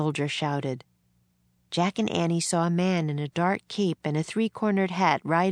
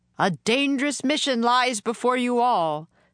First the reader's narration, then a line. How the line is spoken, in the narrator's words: the man shouted above the wind